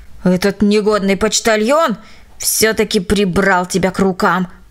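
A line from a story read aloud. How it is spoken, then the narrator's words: Grumbling. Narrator (Russian): пробурчала она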